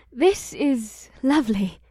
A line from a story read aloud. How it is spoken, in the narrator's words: the elven woman breathed as she giggled